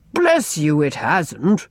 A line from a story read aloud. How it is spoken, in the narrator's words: rumbled Ellen